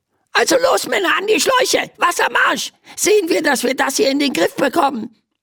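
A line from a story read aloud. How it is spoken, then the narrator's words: Squeaky voice from below. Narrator (German): piepst eine Stimme von unten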